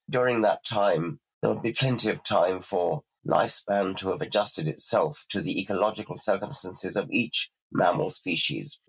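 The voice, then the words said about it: Hoarse, croaking voice. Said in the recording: “I must apologize for my cold, by the way. I'm kind of croaking because I've got a cold.”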